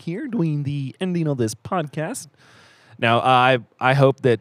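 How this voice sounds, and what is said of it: Kermit the Frog character voice. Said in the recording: “Do you want to hear Kermit? ... I'm Kermit Frog”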